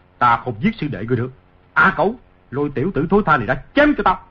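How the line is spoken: Angry. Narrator (Vietnamese): Ngô Lập Thân tức giận nói

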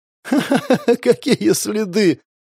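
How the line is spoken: Hysterical giggling woman. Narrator (Russian): истерично хихикнула девушка

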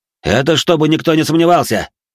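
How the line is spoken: Shout. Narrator (Russian): крикнул

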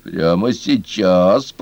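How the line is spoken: Fox, clipped through teeth. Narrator (Russian): процедила лисица

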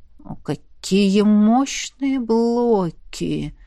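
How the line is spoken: Admiring drawl. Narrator (Russian): С непонятным восхищением протянул он

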